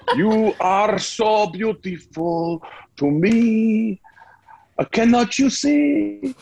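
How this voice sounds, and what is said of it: Singing in an imitated accent. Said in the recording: “he sings it with an accent”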